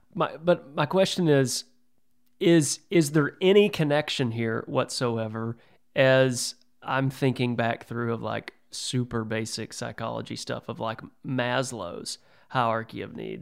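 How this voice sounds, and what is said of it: Texan Southern accent. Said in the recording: “I'm just I'm a redneck from Texas. Okay. You can probably hear it in my voice.”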